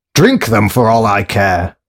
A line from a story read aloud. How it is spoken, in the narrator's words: barked James